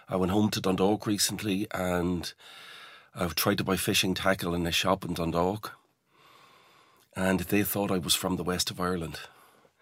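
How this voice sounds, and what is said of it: Smooth generic Irish accent. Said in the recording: “rounded my accent off at the edges ... I have this sort of very sort of generic, smooth at the edges Irish accent”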